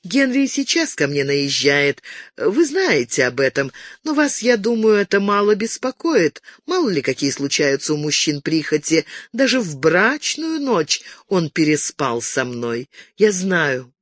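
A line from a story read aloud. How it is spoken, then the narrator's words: Sugary sweet voice. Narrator (Russian): она сладким голоском добавила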